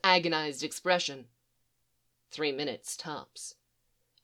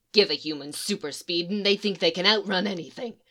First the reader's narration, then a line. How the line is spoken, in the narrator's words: Leonard snapped, on the edge of some sort of precipice that had its name in emotions